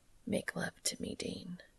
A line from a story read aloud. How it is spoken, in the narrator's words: Cass whispers into his ear